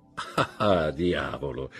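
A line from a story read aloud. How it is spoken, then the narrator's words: Laughing. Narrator (Italian): fece il conte ridendo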